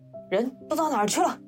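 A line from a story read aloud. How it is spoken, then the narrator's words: Loud shouting. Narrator (Chinese): 先生 大叫起来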